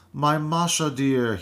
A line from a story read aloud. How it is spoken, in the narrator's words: he cried